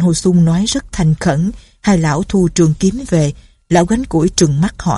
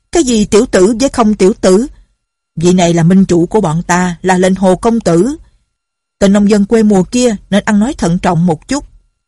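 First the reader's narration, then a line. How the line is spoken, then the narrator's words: Several people shouting. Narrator (Vietnamese): trong quần hào đã có mấy người la lên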